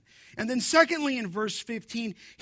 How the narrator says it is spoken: he cried out

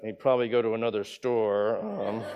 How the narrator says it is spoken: I may have muttered under my breath

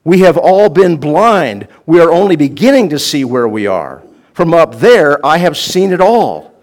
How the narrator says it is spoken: cried

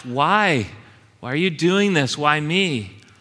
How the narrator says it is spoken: It would have cried out and asked

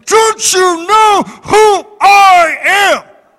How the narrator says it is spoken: roared at him

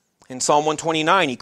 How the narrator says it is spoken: cried out

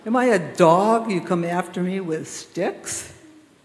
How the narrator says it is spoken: Goliath laughs and yells

